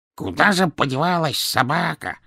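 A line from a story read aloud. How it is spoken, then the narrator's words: Muttering. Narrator (Russian): бормотал кабан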